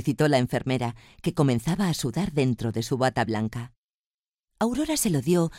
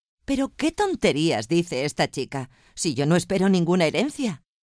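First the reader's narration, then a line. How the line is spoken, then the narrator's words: Laughing exclamation. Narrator (Spanish): rompió a reír y mirando a su nuera exclamó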